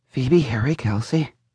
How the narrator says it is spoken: began muttering strange words like

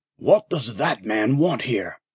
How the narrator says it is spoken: Gropper muttered

